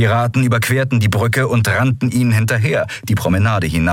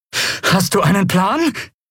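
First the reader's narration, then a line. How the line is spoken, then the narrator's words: Breathless shout over noise. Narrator (German): rief Lien atemlos über den Lärm hinweg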